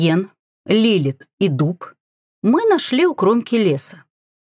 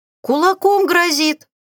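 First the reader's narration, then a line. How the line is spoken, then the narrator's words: Giggling. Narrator (Russian): хихикнули Грета и Жасмин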